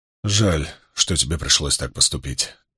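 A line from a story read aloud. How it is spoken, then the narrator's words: Quiet. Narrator (Russian): тихо произнес Ранд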